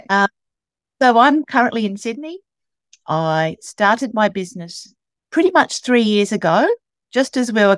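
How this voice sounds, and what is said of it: Australian accent. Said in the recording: “He comes from my hometown in Australia... Please excuse the accent... We do say things differently down under”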